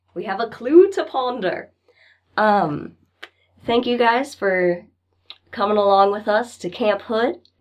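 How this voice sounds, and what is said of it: Worn-out, hoarse voice. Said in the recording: “My voice is shot.”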